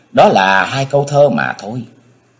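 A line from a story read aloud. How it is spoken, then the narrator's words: Smiling. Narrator (Vietnamese): Trĩ Lan mỉm cười nói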